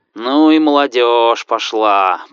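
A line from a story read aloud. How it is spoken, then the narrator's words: Grumbling. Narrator (Russian): проворчал Иван Пантелеич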